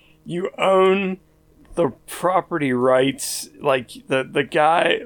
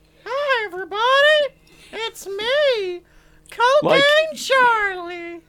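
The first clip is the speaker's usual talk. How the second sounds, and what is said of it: Imitates a cartoon character voice. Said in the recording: “what is with this stupid, stupid voice? ... Even if you can't get, like, the voice ... there has to be better people than whatever that noise”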